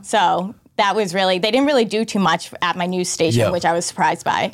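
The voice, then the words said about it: Boston accent. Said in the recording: “Who knew you had a Boston accent? ... the accent comes because your parents are from Dorchester. ... That's where the accent comes out.”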